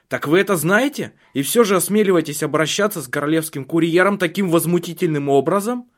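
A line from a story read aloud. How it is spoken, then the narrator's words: Furious shout, young man. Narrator (Russian): Юноша на колесе крикнул в бешенстве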